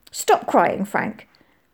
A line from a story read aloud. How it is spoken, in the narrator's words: Molly snapped